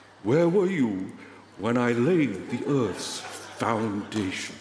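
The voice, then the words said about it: Rough David Attenborough impression. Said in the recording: “It's not going to be a good impersonation, I'll just try. ... God sounding like David Attenborough.”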